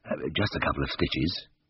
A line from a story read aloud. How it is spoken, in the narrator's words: muttered hoarsely